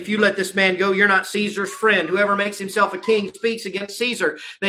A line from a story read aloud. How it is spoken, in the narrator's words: the Jews cried out, saying